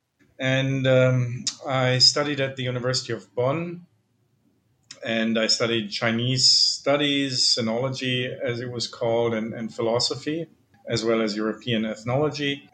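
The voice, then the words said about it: German accent. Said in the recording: “I'm originally from Germany, as you can probably tell, both from my name and my accent.”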